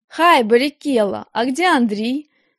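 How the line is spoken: Cheerful question. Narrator (Russian): весело спросила его Галя

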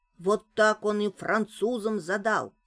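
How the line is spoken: Plain. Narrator (Russian): сказал Пряшкин

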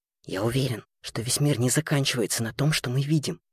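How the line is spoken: Conspiratorial whisper. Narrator (Russian): заговорщическим тоном шептал Лемми по ночам со своей кровати, так, чтобы их с сестрой диалог точно никто не мог подслушать

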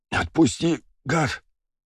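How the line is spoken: Moaning exhale. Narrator (Russian): простонал, выдохнул тощий

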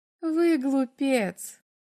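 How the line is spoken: Laughing. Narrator (Russian): засмеялась она

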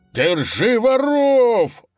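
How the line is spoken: Bandit leader's yell. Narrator (Russian): заорал предводитель разбойников

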